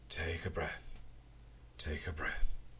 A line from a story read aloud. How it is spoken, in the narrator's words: said soothingly